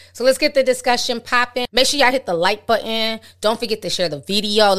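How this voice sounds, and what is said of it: Usual voice. Nothing is said of it.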